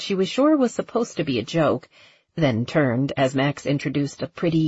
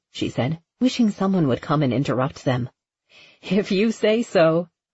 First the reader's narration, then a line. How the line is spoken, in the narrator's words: Karen laughed